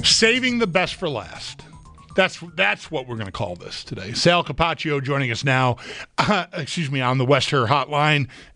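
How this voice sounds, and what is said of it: Hoarse, strained voice. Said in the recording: “I'm losing my voice all of a sudden”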